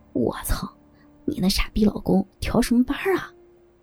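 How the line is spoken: Panting breathlessly. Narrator (Chinese): 田香娇喘着回答着

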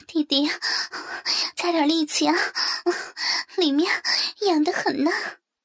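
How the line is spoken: Panting. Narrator (Chinese): 我一边喘息着，一边回头对刘磊说

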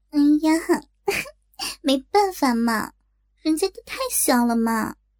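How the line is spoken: Giggling. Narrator (Chinese): 小影笑嘻嘻的说

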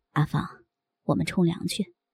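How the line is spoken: Soft-spoken. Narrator (Chinese): 姐夫轻声的对我说

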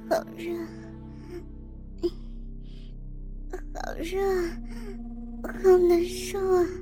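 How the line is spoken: Feverish murmuring. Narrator (Chinese): 浑身上下都在发热，他忍不住喃喃自语

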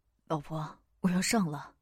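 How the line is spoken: Gentle. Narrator (Chinese): 梦影温柔道

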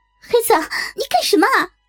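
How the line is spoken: Frightened hurried shout. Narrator (Chinese): 我给吓坏了，我赶忙喊

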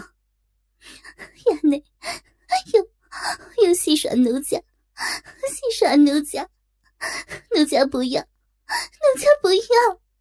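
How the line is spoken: Crying. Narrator (Chinese): 哭道

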